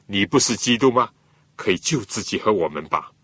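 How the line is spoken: Mocking. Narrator (Chinese): 另外一个强盗呢，还是讥笑耶稣说

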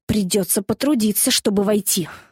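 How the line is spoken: Irritated complaint. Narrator (Russian): раздраженно посетовал Дэви

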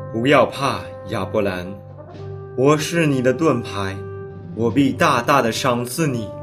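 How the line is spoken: Comforting. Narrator (Chinese): 上帝安慰他说

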